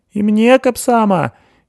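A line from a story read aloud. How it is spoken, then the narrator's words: Squeak from behind. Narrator (Russian): пискнула из-за спины Секиль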